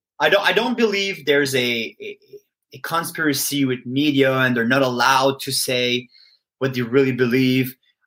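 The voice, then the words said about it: French-accented English. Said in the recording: “I'm great in French. I'm terrible in English ... Your accent makes you sound probably 10 IQ points smarter than you really are ... It's a compliment to all the French people.”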